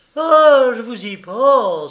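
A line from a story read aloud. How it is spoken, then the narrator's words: Old woman exclaiming. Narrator (French): s'écria la vieille fille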